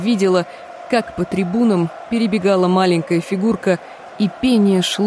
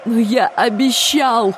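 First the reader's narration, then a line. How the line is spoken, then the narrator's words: Sobbing. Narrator (Russian): прорыдал Трев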